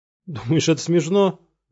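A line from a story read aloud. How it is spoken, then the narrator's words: Tearless whimpering. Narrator (Russian): Захныкал Синглер, но слез не было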